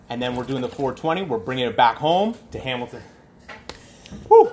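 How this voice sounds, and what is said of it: Out of breath, breathless speech. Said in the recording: “Sorry, I'm out of breath. ... hobbling around.”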